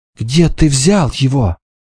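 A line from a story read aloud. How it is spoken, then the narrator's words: Trembling voice question. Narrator (Russian): Девушка дрожащим голосом спросила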